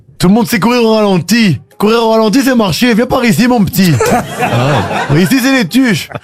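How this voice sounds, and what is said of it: Imitated Les Tuches accent. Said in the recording (French): “Vous faites l'accent des tuches.”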